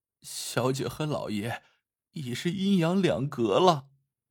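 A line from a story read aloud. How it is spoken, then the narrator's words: Choked sobbing. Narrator (Chinese): 杏儿哽咽道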